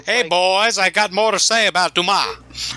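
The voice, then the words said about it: 1920s showman recruiter voice. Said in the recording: “we make him sound like a man who's recruiting flappers for a show in the 1920s”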